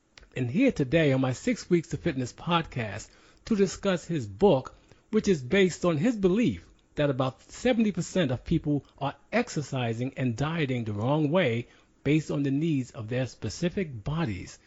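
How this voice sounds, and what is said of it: Polished radio announcer voice. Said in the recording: “a good announcer voice like you”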